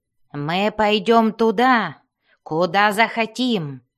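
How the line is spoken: Roar. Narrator (Russian): взревел Бреннер

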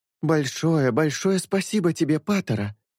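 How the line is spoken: Exclamation. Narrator (Russian): воскликнула Майтера Мрамор

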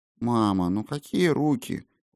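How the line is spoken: Sleepy reproach. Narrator (Russian): укорила ее Ая сонно

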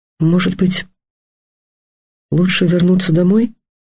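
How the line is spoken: Timid. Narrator (Russian): робко проговорила Дарья

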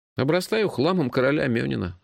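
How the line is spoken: Sighing. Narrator (Russian): вздохнул я

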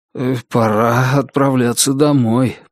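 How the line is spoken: Mumbling, stuttering with shame. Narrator (Russian): промямлил Лестер, чуть заикаясь от стыда и робости

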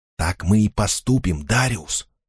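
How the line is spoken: Whisper. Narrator (Russian): прошептала Элеонор

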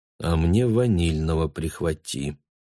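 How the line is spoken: Mutter. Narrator (Russian): пробормотал Бруно

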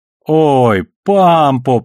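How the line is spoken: Drawn-out drawl. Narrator (Russian): протянул его сосед

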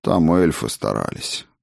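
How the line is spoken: Sighing. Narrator (Russian): вздохнул познавший тьму

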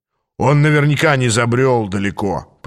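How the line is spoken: Grumble. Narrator (Russian): проворчал Аас

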